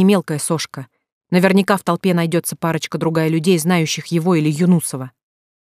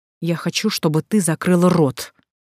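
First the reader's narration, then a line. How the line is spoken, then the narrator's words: Hissed through teeth. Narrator (Russian): сквозь зубы прошипел тот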